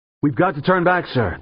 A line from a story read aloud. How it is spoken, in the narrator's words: the pilot yelled over the thrumming thunder of the engines